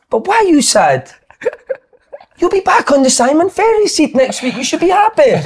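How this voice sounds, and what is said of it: Imitated Italian accent. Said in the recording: “the way that tone and everything, that was the Canio, mate. That Italian accent.”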